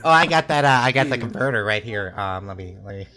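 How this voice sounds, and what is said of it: Imitates another person's voice. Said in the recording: “That was such a good impression.”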